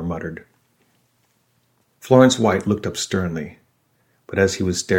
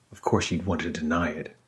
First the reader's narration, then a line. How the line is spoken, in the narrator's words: observed coolly